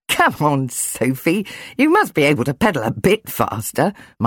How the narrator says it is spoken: Michael told her, laughing

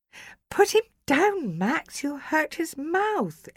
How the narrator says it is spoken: Ellie cried

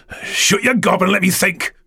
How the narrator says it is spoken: Mick growled

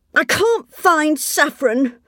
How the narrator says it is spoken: complained Saffron crossly

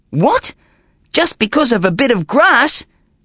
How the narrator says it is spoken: cried Dinsmore

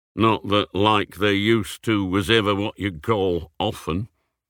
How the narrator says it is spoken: muttered

